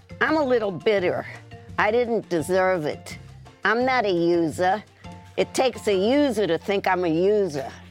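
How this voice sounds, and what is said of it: Impression of Jill Zarin. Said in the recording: “my mom did an impression. ... It's Jill Zarin.”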